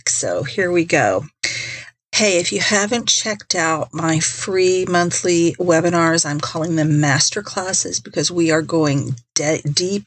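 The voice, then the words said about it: Wonky, congested-sounding voice. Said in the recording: “my voice is wonky today. I've been fighting a sinus infection for almost a week ... hoping that my voice would come back in full force. But as you can tell, it hasn't.”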